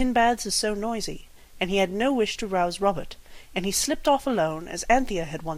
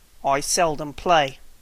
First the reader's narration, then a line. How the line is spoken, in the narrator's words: said the Psammead coldly